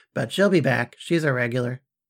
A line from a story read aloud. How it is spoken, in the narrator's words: said a chuckling Shura